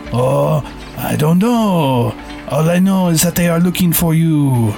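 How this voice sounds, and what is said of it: Bad fake French accent. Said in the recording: “give him a criminal accent ... the accent was so terrible ... fake French”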